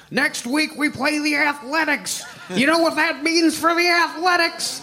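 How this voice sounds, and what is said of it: Walter Matthau impression. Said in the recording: “I love your Walter Matthau impression.”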